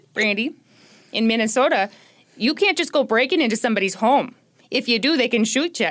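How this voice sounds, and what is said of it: Put-on Minnesota accent. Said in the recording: “given to you for the sake of levity in a Minnesota accent”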